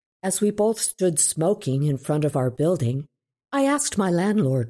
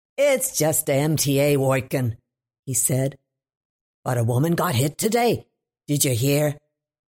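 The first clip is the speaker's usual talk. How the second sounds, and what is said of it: Thick Brooklyn accent. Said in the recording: “he said to me in his thick Brooklynese”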